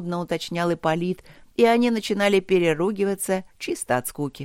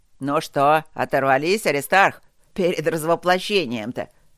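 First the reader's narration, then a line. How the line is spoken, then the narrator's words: Smirking snort. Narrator (Russian): Второй хмыкнул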